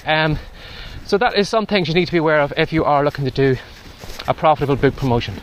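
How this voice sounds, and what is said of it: Out of breath speech. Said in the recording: “out of breath, I'm just walking into a strong wind here”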